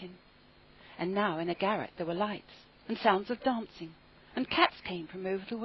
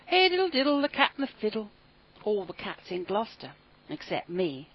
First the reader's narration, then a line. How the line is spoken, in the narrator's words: said Simpkin